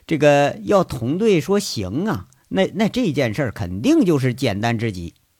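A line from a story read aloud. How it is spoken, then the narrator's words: Cheeky, grinning. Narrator (Chinese): 邢贵嬉皮笑脸的说一句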